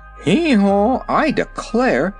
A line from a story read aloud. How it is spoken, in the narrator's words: exclaimed the king